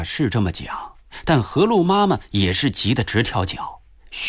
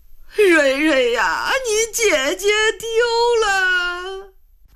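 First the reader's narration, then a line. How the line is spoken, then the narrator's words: Grandmother crying. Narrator (Chinese): 奶奶哭了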